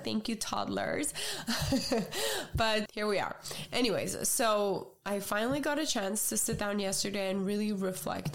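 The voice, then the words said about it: Voice sounds ill. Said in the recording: “You guys could probably hear it from my voice. Getting sick back to back this season”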